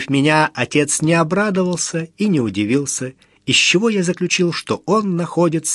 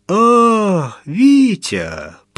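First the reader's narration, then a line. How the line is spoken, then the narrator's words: Satisfied drawl. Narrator (Russian): протянул удовлетворенно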